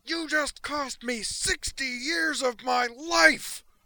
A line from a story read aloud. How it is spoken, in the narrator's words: When she could speak again at all, what came out, in a voice not far removed from the one she'd uttered that scream in, was